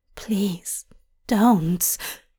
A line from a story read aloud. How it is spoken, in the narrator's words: Hop whispers